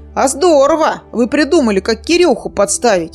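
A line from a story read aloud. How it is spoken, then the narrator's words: Delighted exclamation. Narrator (Russian): С восторгом воскликнул Михей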